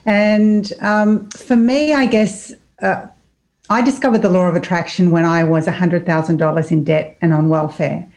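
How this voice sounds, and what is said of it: Australian accent. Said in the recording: “I'm from Australia. You may have noticed the accent.”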